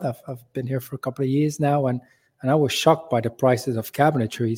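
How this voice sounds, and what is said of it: Non-local foreign accent. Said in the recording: “you can hear from my accent, I'm not from around.”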